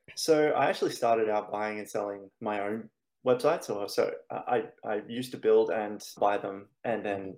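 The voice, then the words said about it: Australian accent. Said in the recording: “the accent's Australian”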